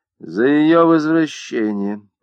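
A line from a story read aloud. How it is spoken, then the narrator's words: Through gritted teeth. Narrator (Russian): процедила сквозь зубы Марта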